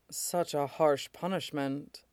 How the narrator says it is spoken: Shidan murmured back

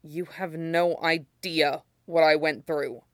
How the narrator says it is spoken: Aizawa said sharply, unexpectedly loud in the small computer lab

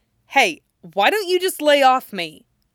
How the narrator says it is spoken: Jackson says loudly

